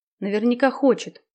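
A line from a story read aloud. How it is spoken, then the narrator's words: Sighing reply. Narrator (Russian): вздохнув, ответила Наташа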